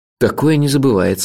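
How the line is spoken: Sighing. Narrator (Russian): вздохнул я

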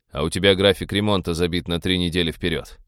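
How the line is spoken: Grumbling. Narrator (Russian): проворчал капитан

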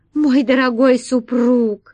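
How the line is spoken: Pleading. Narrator (Russian): взмолилась королева

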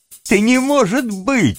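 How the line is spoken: Bursting out laughing. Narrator (Russian): расхохотался Тим

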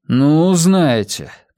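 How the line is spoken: Sighing. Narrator (Russian): Тобиас вздохнул

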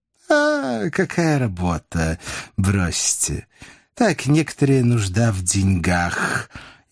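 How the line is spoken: Sigh. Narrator (Russian): вздохнул он

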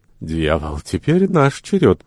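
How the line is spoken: Uneasy mutter. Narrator (Russian): пробормотал Ван Миттен, который испытывал неясное беспокойство, сам не зная почему

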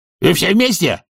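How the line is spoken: Barked. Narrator (Russian): рявкнул он

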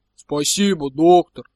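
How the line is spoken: Booming voice. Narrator (Russian): прогудел Магнус Мэнсон

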